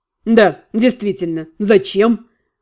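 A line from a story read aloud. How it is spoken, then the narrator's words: Wry snort. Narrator (Russian): хмыкнул Дэниел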